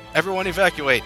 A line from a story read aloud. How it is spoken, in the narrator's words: yelled the Sega staff as they ran